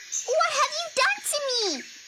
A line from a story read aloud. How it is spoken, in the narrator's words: Flea shouted